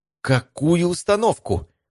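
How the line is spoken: Indignant exclamation. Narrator (Russian): возмущенно воскликнула Евгения

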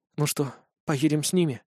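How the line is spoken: Barely audible whisper. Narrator (Russian): раздался ее едва слышный шепот

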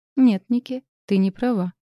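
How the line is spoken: Calm objection. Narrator (Russian): спокойно возразила Искра

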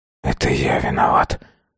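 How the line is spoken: Whisper. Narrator (Russian): прошептал он

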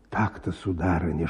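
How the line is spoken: Whisper. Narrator (Russian): шептал он

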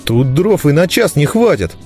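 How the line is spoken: Angry agreement. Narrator (Russian): зло поддержал Гонду Лузга

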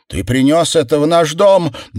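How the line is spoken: Screamed. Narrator (Russian): завопила она

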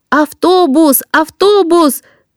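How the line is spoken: Students shouting. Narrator (Russian): Закричали ученики

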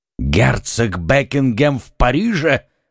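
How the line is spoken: Exclaiming. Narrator (Russian): воскликнул король

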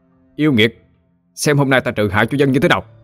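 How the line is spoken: Loud shout. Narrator (Vietnamese): Hắn miệng quát lớn

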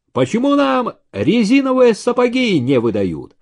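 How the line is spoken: Sudden shout. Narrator (Russian): вдруг крикнул Ибрагим

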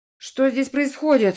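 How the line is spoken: Angry exhale. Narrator (Russian): зло выдохнул Типолье

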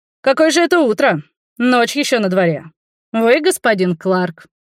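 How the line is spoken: Cheerful reply. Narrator (Russian): бодро ответил незнакомец

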